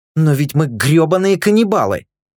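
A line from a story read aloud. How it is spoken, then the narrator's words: Nearly yelling. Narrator (Russian): чуть не заорал Рика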